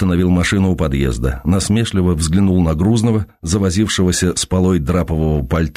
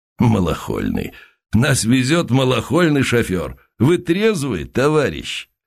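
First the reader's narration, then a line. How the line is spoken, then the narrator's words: Bursting laughter, heavy man. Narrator (Russian): Грузный пыхнул хохотом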